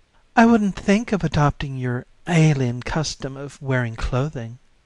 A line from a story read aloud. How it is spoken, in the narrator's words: she said sweetly